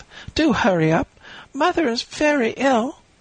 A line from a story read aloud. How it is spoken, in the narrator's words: she cried